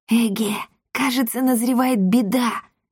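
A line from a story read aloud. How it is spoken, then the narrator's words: Whispered. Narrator (Russian): шепнул Триш Дарине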